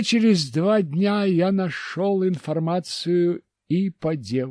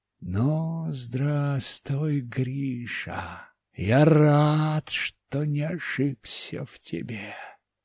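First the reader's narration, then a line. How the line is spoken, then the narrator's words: Smiling mutter. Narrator (Russian): я улыбнулся и пробормотал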